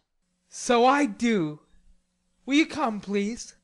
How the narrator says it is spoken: cried Laurie

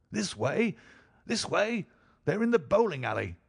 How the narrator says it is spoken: cried the stranger

